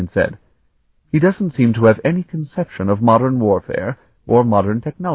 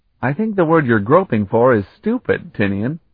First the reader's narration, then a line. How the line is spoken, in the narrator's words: Colton chuckled